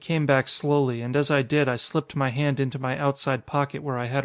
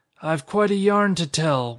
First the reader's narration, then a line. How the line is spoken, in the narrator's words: went on the skeleton in his awful voice